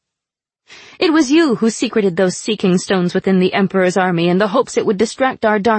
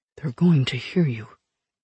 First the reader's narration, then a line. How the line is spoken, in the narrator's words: Khalid mumbled